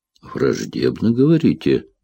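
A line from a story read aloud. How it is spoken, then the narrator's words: Grumbling. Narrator (Russian): проворчал Бингхэм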